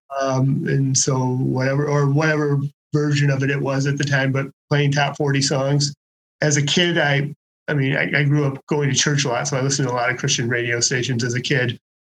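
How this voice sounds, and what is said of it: Michigan regional accent. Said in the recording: “Michigander accent”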